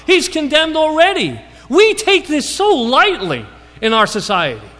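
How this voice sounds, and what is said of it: Yelling, excited preaching. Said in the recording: “I'm yelling, I get excited.”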